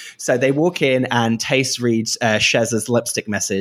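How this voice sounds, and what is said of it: Usual voice. Nothing is said of it.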